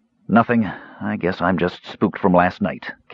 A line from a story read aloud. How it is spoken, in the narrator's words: Caramon muttered